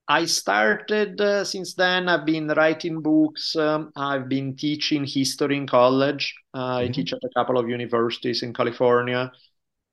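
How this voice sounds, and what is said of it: Italian accent in English. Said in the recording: “I grew up in Italy, as probably my accent gives away ... my accent never goes away”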